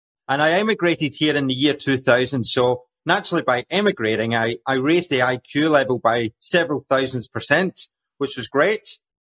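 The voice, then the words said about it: Scottish accent. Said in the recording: “as you can tell with my accent, my story began away in the land of Scotland”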